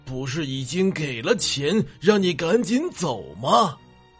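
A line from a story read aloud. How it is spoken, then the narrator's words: Gleeful, giggling. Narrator (Chinese): 血魔童笑嘻嘻的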